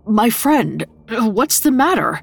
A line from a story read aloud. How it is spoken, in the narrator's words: stammered